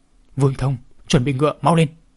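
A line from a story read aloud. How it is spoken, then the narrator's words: Thunderous powerful shout. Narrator (Vietnamese): tiếng hét của Lăng Thiên đã quán trú nội lực hùng hậu, giống như là một tiếng sét đánh trên không trung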